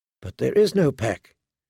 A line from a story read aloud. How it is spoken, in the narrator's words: she whispered to the weirwood